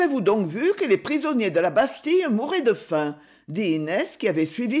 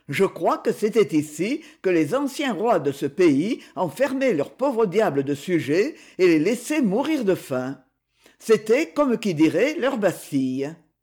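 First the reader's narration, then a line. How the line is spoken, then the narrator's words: Pedantic, lecturing tone. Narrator (French): dit Luret d'un ton doctoral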